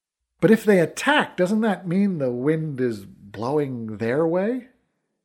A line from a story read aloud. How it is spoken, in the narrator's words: Dahi laughed